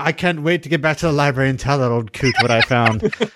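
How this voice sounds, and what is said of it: Ewan McGregor impression. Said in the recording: “That was my Ewan McGregor impression”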